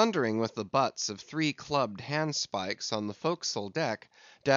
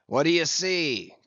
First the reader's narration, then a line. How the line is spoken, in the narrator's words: cried Ahab